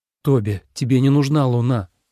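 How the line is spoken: Plain. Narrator (Russian): сказал Лен

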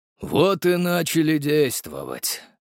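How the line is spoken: Breathed out. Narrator (Russian): выдохнул

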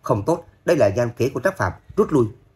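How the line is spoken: Sudden loud shout. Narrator (Vietnamese): Lãnh Vô Thường bất chợt quát to

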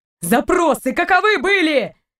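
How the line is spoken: Harsh bark. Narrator (Russian): рявкнул Торн

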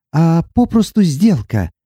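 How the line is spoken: Resigned sigh. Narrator (Russian): обреченно вздохнула Сати

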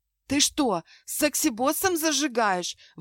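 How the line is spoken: Wailing into phone. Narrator (Russian): взвыла в трубку

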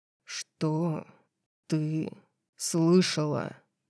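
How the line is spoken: Growling. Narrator (Russian): Прорычал он

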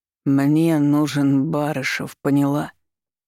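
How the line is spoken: Menacing hiccup. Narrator (Russian): Грозно наклонившись ко мне, икнул Николай

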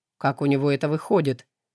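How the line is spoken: Thoughtful question. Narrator (Russian): задумчиво поинтересовался слуга

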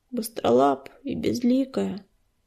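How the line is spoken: Muttering. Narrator (Russian): пробормотал оруженосец

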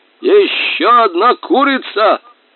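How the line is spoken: Distant shout. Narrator (Russian): крикнул издали сержант

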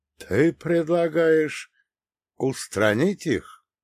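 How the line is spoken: Slow, deliberate. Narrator (Russian): медленно проговорил

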